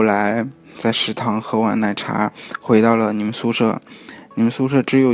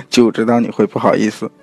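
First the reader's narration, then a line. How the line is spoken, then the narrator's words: Smiling. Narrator (Chinese): 你回头笑着跟我说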